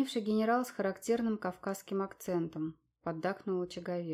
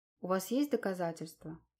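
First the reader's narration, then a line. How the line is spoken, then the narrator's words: Calm inquiry. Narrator (Russian): спокойно поинтересовался Дронго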